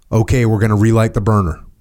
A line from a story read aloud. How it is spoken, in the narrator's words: Chuck calmly called